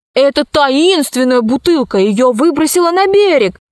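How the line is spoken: Shouted. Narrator (Russian): закричал Пашка

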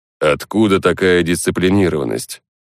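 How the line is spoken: Snorting. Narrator (Russian): Хмыкнул охотник

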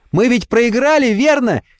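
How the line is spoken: Delighted shout. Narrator (Russian): кричит в неподдельном восторге

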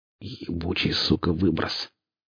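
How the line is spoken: Exhaled. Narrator (Russian): Лом выдохнул

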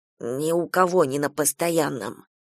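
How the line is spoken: Whispered. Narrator (Russian): зашептал Шушенков

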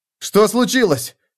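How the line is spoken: Shouting. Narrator (Russian): крикнул Феликс

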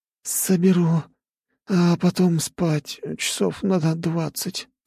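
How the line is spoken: Weary moan. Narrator (Russian): простонала дряда

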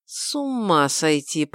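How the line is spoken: Groan. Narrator (Russian): простонал Гил

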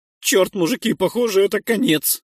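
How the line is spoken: Hoarse voice. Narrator (Russian): сказал Нойс севшим голосом

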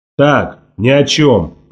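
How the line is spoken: Grumble. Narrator (Russian): проворчал Волк Ларсон

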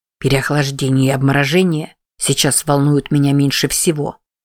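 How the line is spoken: Grumbled mutter. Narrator (Russian): буркнул Сипи

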